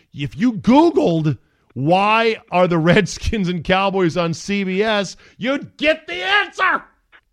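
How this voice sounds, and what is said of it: Yelling, raised angry voice. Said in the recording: “I'm not yelling, am I? I'm yelling.”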